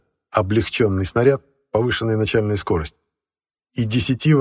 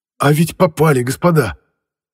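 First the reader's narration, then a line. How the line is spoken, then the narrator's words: Joyful shout. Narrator (Russian): радостно крикнул, увидев, как из германского крейсера выбросило огнем и дымом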